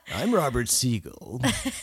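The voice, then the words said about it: Imitates a radio host's voice. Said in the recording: “do the Robert Siegel voice.”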